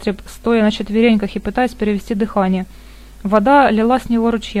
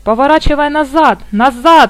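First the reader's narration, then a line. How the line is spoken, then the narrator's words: Yelling. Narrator (Russian): орал Попли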